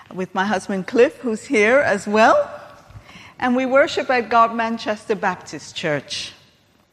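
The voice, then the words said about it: American accent. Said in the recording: “I have an accent. I'm American. ... But I still have that accent.”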